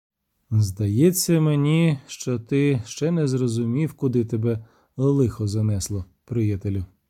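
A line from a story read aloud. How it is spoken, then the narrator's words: Stranger speaks calmly. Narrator (Ukrainian): спокійно сказав незнайомець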